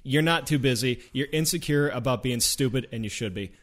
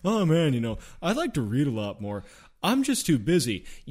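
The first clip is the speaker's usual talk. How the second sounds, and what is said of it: Imitates another person's voice. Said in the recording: “I love that Connor impression.”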